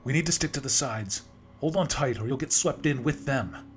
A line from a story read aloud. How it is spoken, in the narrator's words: Maggie shouted, her voice barely audible over the deafening winds